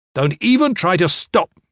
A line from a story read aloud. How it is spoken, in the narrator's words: Gavin snarled